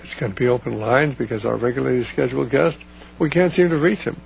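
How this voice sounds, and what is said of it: Strained, hoarse voice giving out. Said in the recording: “my voice is giving out”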